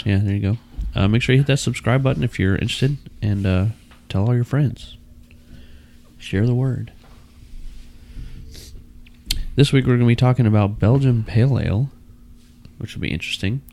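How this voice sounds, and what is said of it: Low, soft, radio-announcer voice. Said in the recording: “You sound extra NPR today... It's my allergies... My voice is lower... you're also talking very softly”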